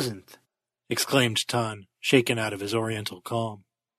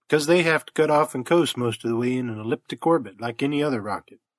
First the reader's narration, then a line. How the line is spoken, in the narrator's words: answered Jonner calmly